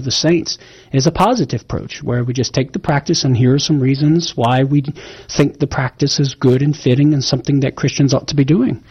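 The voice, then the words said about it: Southern American accent. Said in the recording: “making fun of my southern accent.”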